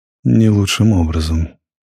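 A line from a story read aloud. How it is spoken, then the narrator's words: Gentle remark. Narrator (Russian): мягко заметил ротмистр штатский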